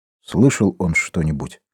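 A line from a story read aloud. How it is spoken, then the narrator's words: Whisper. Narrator (Russian): прошептал Дембо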